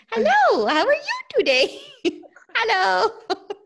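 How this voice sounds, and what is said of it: Squeaky high-pitched greeting voice. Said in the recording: “my voice is just that squeaky. So I do that to my dog”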